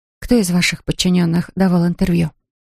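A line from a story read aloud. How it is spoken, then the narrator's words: Plain question. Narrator (Russian): спросила Клэр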